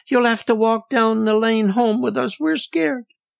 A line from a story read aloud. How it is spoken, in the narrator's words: squeaked out